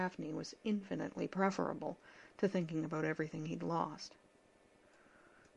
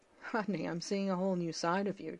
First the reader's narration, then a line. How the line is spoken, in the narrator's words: John said, biting back a laugh